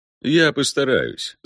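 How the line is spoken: Laughing. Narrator (Russian): засмеялся Эпине

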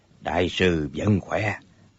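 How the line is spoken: Soft laugh. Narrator (Vietnamese): Nhất Đăng cười khẽ nói

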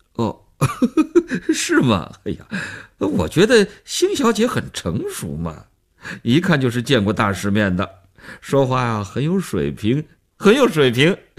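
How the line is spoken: Man, laughing. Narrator (Chinese): 那男人笑着做分析

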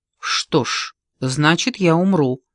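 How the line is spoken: Plain. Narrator (Russian): сказал он

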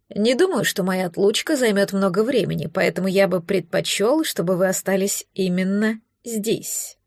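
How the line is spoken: Deliberately calm. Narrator (Russian): подчеркнуто спокойно произнес

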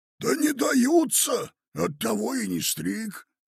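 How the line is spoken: Grumpy hoarse voice. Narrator (Russian): проговорил ворчливым и осиплым голосом

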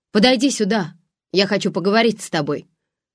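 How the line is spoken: Shouted. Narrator (Russian): крикнул Спик

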